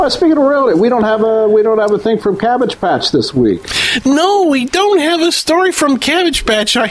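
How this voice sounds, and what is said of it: Usual voice. Nothing is said of it.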